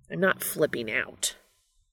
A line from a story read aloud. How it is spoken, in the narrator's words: Castiel hisses